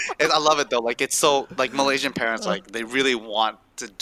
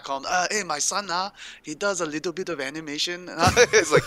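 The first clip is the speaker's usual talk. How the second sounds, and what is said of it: Poor put-on Malaysian accent. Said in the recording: “my Malaysian accent so sucks”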